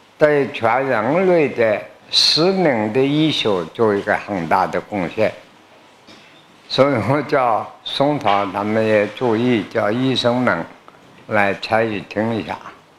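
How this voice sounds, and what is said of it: Heavy accent, hard to understand. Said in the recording (Chinese): “有些听我的口音，或者听我引用古书的文字听不懂的”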